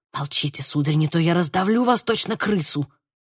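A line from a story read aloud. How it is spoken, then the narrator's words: Whisper. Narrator (Russian): прошептал он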